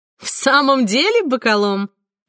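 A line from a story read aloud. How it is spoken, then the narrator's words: Laughing. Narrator (Russian): засмеялась Савина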